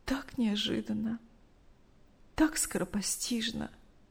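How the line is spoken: Tearful telling. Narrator (Russian): сквозь слезы рассказывала Мария Ивановна

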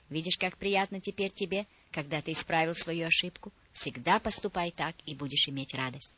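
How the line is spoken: Gentle, affectionate. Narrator (Russian): ласково сказала

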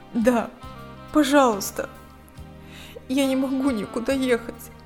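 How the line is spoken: Trembling voice. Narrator (Russian): дрожащим голосом произнесла Лика

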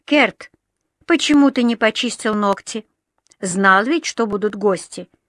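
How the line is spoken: Stern question. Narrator (Russian): строго спросила Дженни

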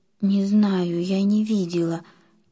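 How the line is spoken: Frightened whisper. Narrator (Russian): испуганно прошептала Лиля

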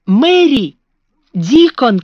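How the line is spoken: Shouted. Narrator (Russian): крикнул он

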